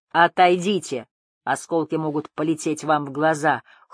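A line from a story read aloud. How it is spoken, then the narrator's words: Gloomy grumble. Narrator (Russian): хмуро проворчал Бардо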